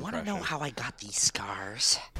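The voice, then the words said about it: Joker impression voice. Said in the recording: “I used to do a good Joker impression,”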